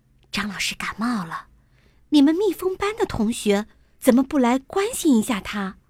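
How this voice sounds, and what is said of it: Quiet, hushed speaking voice. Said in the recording (Chinese): “小声的说”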